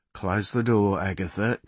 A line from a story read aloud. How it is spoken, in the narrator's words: Carl says quietly